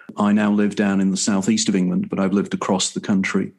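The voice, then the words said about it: Liverpool English accent. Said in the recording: “As you can tell from my accent, I'm from the UK... you will sense certain intonations in my accent, which tells you that I come from the area of the city of Liverpool”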